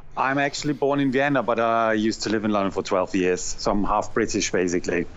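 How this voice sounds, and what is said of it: Austrian-British blended accent. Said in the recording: “I hear it in your accent. It's like a blend of the two.”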